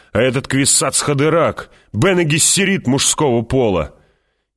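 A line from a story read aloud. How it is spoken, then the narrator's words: Shouting. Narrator (Russian): закричал он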